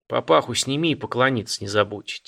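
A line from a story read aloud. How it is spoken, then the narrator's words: Quiet advice. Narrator (Russian): тихо посоветовал парню казак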